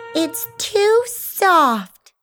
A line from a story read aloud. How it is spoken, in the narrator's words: she whined